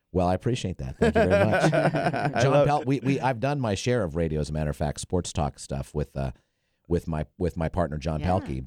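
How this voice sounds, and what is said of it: Smooth, polished radio voice. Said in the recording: “you have such a good radio voice”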